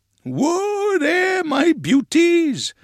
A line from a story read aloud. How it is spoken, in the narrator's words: cried Grandpa